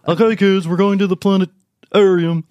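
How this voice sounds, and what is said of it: South Park teacher impression. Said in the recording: “a pretty good teacher impression of South Park”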